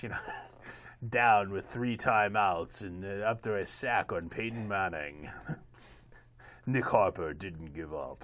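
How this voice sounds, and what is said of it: John Facenda NFL Films narrator impression. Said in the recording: “in my best John Facenda voice”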